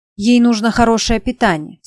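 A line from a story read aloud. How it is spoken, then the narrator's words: Stern tone. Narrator (Russian): сказал строгим тоном доктор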